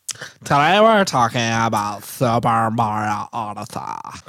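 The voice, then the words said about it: Put-on California accent. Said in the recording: “We could do California. ... I don't want to hear that the whole time. It's so annoying.”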